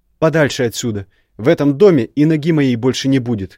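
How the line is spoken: Shouting, suppressing hurt. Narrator (Russian): крикнула, пытаясь давить в себе обиду и боль

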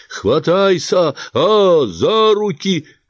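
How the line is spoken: Shouted. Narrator (Russian): крикнул мне Гемлут

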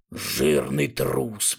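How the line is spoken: Sullen muttering. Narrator (Russian): бормотал он угрюмо

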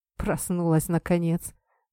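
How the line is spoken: Snorting chuckle. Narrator (Russian): хмыкнул Кумихо

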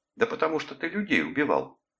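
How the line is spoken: Exclaimed. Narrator (Russian): воскликнула она

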